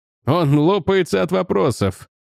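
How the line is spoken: Giggling. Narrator (Russian): продолжал хихикая Маргрейвс

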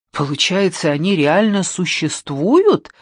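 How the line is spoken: Exclamation. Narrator (Russian): воскликнул

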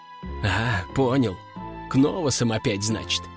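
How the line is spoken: Sighed. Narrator (Russian): вздохнул пилот

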